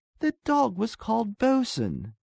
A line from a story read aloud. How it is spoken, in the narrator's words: she cried delightedly